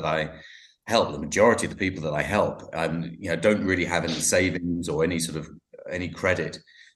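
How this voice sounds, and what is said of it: London English accent. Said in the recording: “you have a fantastic accent ... I'm from London”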